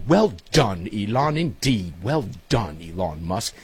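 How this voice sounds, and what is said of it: Put-on English accent. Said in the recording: “to be spoken in my best English accent.”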